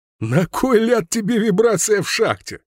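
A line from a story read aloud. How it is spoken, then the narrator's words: Laughing question. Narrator (Russian): сквозь смех спросил здоровяк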